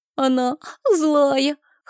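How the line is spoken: Tearful child whimpering. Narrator (Russian): хныкал мальчик, вытирая кулачком слезы

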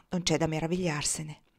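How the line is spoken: Murmur. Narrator (Italian): mormorò

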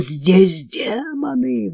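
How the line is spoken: Wailing howl. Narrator (Russian): взвыла Антуана

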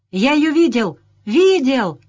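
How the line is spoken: Yelling. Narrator (Russian): завопил с порога

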